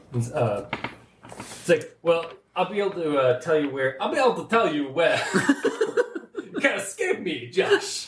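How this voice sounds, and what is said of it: Put-on accent for a character. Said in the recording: “That's a good accent for that race, though.”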